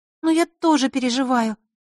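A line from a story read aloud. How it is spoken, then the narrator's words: Sad. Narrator (Russian): добавила она грустно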